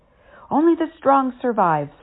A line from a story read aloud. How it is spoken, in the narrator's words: Saru shouted